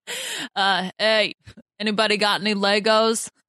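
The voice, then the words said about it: Poor Boston Rob impression. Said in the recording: “my terrible Boston Rob impression”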